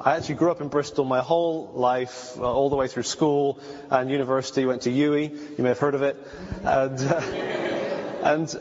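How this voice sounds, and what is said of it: Mixed British and American accent. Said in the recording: “got all confused in my accent. And so when I'm over there, they say, "Oh, we love your accent," ... when I'm over here, people go, "Where are you from?" ... it's the wrong accent”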